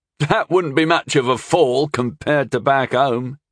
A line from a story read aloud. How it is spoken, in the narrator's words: he laughed contemptuously